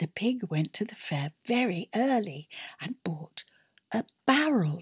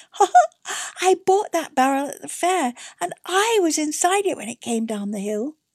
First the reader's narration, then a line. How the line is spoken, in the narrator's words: The little pig laughed out loud and said